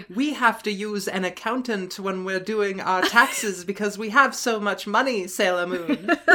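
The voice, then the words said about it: Posh, rich-sounding over-enunciated voice. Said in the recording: “She has the most intense enunciation of consonants of anyone in the world. And it's, like, almost a British accent. ... make her sound really rich? Like, this is what it sounds like when we're on the Hamptons?”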